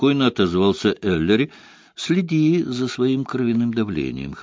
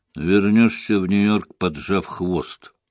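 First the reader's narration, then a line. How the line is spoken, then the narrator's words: Gloomy prediction. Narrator (Russian): мрачно предсказал инспектор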